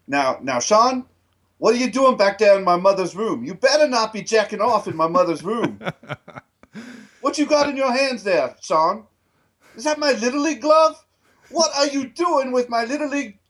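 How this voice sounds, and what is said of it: Bad put-on accent, drifts Middle Eastern. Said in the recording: “You like went almost like Middle Eastern there for a second. ... it got really strange. ... That's just the worst accent I've ever heard in my life. ... it got a little weird”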